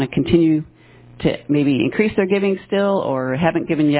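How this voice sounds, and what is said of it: Usual voice. Nothing is said of it.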